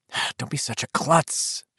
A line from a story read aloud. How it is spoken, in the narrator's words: she whispered fiercely against his shoulder